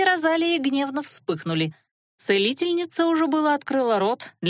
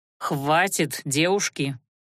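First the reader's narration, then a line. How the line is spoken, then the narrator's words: Cold request. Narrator (Russian): холодно попросил он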